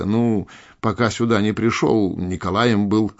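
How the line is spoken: Chuckling. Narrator (Russian): хохотнул капитан

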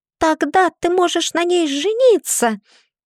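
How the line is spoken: Squeal. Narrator (Russian): Тея взвизгнула

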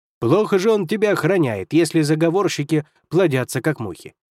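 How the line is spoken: Sarcastic. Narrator (Russian): язвительно сказал Хувей

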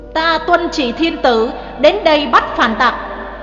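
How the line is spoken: Loud stern shout. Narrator (Vietnamese): Sứ giả quát lớn

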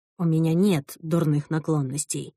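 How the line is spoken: Whisper. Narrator (Russian): прошептал Шон

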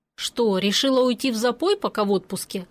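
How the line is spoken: Snorting. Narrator (Russian): хмыкнул Григор

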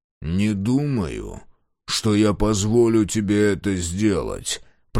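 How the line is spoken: Growl. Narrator (Russian): прорычал Мюррей

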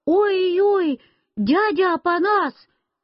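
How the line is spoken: Frightened scream. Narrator (Russian): Я испугался и закричал

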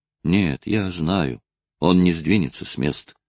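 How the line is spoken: Eerie, barely audible young man. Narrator (Russian): ответил юноша жутким, еле слышным голосом

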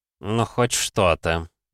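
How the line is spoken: Grumbled. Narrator (Russian): пробурчал он

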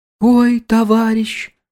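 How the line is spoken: Mournful whining voice. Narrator (Russian): завела она тоскливым, скулящим голосом

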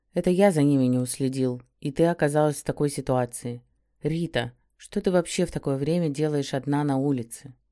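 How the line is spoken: Soft, quiet, restrained indignation. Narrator (Russian): Он говорил мягко и осторожно, тихо, словно боясь меня напугать, но в то же время в его голосе отчетливо слышалось возмущение

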